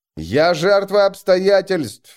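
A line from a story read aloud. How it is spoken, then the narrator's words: Shouting. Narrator (Russian): закричал бы он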